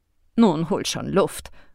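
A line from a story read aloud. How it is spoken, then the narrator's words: Murmuring. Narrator (German): murmelte sie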